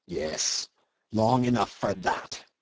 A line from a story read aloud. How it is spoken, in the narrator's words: snarled Cornelius